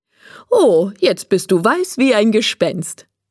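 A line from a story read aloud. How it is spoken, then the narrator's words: Laughing. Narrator (German): sagt Frau Mischki und lacht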